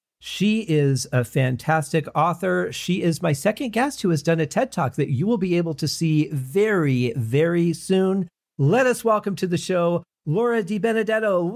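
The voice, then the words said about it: Polished radio host voice. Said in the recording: “Do you hear the difference between my radio voice and the voice I was using when we were speaking before the show?”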